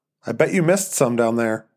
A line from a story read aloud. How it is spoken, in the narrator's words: Joan said